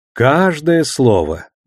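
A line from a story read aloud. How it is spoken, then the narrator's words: Cheerful confirmation. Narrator (Russian): весело подтвердил Душелов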